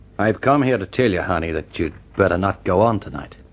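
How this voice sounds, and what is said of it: Strong American accent. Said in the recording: “a voice with a strong American accent.”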